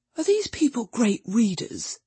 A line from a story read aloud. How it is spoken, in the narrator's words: Freddy whispered